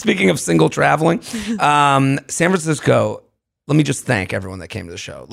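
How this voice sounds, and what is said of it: Slightly froggy, hoarse voice. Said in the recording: “my voice is a little ... froggy.”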